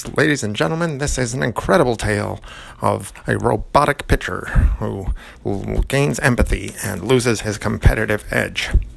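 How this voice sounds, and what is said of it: Old-timey baseball announcer voice. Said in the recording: “my best old-timey baseball announcer voice”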